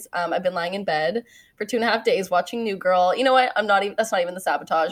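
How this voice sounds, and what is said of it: Nasal, congested voice. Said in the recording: “catching a little head cold ... I sound a little nasally”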